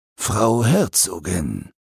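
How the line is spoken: Cold, clear voice. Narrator (German): eine Stimme sagte kalt und klar

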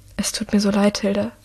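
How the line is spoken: Whispered. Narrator (German): flüstert Michael

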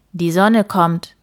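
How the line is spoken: Dragon calling back. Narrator (German): rief der Drache zurück

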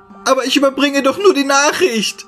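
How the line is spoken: Screaming at full force. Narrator (German): schrie aus vollem Leib

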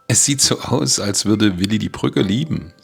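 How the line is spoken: Laughing. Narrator (German): sagte Becky lachend

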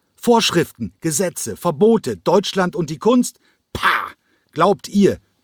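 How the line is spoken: Shout. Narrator (German): Quenko schrie

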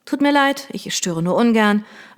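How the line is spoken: Flat, toneless. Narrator (German): erklärte sie tonlos

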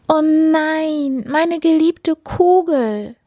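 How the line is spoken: Princess crying out. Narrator (German): rief die Prinzessin

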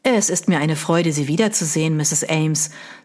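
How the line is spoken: Plain. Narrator (German): sagte Mr

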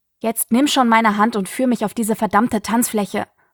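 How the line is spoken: Angry hiss. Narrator (German): fauchte Pandora

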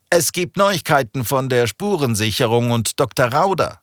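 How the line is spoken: Call from a distance. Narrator (German): rief ein Kollege aus dem Foyer

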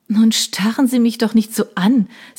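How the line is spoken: Embarrassed laugh. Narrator (German): sagte sie und lachte verlegen

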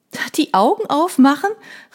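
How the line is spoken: Calling out. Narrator (German): rief ich

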